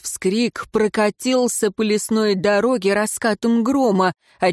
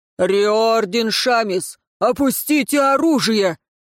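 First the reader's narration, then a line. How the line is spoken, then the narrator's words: Booming voice. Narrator (Russian): Вновь прогремел голос Риора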